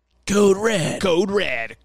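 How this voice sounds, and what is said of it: Imitated announcer voice, not greasy enough. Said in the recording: “doing that voice ... See, that does kind of sound like ... It's pretty good. So it didn't have quite enough grease. I needed someone with a little more grease on their voice.”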